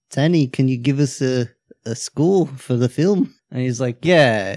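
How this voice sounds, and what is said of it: Put-on Australian-sounding New Zealand accent. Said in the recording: “making fun of the Australian accent ... It's having a hard time kicking over to New Zealand.”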